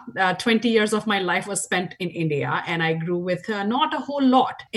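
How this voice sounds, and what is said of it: Indian accent. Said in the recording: “as you can tell from my accent, I grew up in India.”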